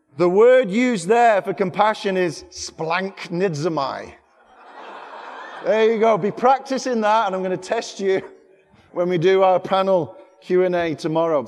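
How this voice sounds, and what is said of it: English accent. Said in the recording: “Even with my English accent”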